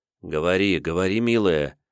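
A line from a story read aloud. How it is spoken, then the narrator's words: Gentle yet commanding. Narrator (Russian): ласково попросил, приказал Давмонт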